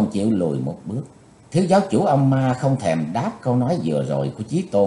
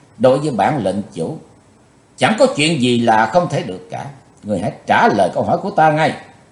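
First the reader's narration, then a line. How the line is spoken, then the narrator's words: Threatening. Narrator (Vietnamese): lời nói của Chí Tôn như dọa nạt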